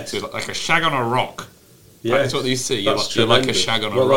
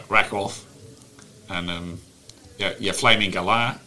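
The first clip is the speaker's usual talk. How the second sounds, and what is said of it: Put-on Australian accent. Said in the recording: “I can only say a few things in an Australian accent like this.”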